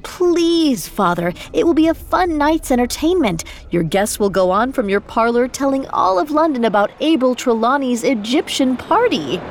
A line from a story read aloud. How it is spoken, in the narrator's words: Margaret pleaded most of all